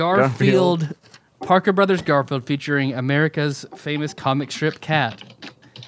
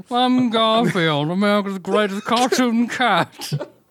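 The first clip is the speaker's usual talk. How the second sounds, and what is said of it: Garfield cartoon cat voice. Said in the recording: “Do your Garfield voice. ... Gotta channel my Bill Murray or Lorenzo Music. ... Nailed it. You sounded like Rich Garfield.”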